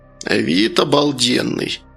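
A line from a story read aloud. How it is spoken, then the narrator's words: Grumbling grandmother. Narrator (Russian): пробурчала бабушка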